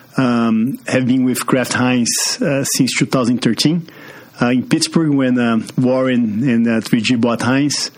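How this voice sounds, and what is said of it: Brazilian-accented English. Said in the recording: “As you can see from this accent, I'm from Brazil.”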